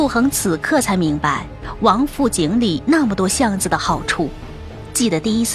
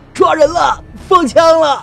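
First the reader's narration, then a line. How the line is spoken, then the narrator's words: Loud shouting. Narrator (Chinese): 有人大声喊着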